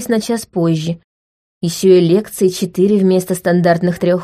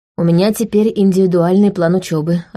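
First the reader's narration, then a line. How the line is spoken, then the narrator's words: Plain. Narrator (Russian): ответила я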